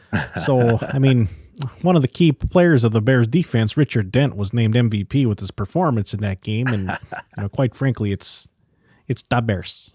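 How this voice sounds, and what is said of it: Exaggerated Chicago accent, SNL-style. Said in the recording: “that was a long-winded, terrible Chicago accent. I stole it from Saturday Night Live. I don't know if it's any good.”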